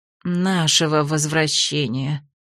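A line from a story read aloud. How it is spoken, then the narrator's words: Woman's quiet sigh. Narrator (Russian): тихо вздохнула женщина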